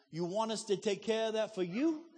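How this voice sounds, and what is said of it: New York Italian accent. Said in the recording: “they had kind of New York Italian accents”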